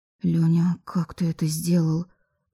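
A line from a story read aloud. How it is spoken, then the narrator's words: Fearful whisper. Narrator (Russian): прошептала я, все еще боясь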